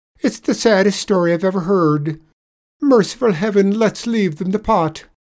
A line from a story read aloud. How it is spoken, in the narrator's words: bawled the tradesman